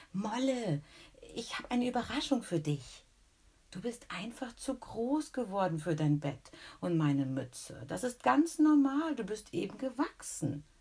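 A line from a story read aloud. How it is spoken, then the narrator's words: Excited. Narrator (German): sagt aufgeregt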